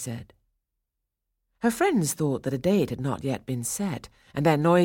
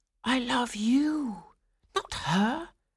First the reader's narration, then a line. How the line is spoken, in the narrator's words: Franz whispered to Swanilda